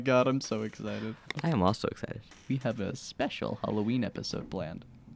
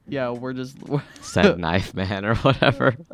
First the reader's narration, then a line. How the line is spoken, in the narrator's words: we'd just be laughing because we'd be like